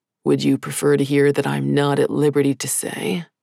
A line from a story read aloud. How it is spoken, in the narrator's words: His tone was clearly teasing